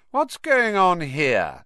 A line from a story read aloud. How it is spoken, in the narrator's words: came the cold, drawling voice of Draco Malfoy